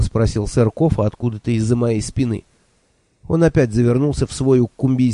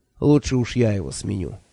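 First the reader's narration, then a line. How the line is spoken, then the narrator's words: Sigh. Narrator (Russian): вздохнул Кофа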